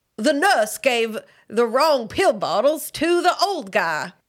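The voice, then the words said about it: Put-on Southern accent. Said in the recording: “You had to say that in a Southern accent, too.”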